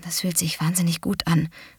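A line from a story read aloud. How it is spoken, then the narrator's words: Murmured. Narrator (German): murmelte Kate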